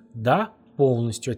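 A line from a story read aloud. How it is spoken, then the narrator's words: Crisp, clipped delivery. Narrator (Russian): отчеканила Татьяна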